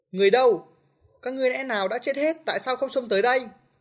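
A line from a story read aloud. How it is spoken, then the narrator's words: Sudden loud shout. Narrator (Vietnamese): Công Tôn Khất Nhi đột nhiên hét lớn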